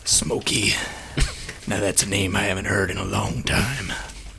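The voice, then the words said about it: Sam Elliott impression, grizzled drawl. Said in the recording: “the DM's best Sam Elliott impression”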